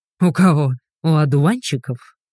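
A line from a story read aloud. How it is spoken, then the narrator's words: Laughing. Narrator (Russian): Засмеялся Игорь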